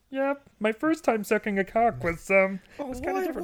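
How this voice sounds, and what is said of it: Kermit the Frog voice impression. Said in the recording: “my Kermit the Frog impression”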